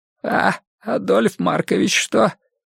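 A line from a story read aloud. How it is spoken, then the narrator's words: Suddenly hoarse question. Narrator (Russian): внезапно охрипшим голосом спросил Егор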